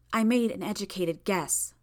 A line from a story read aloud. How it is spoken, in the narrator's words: Tattletale spoke in a low voice